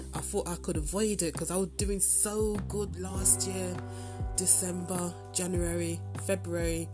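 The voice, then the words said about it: Stuffy, congested voice. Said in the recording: “If you can tell by my voice, I am having a head cold right now.”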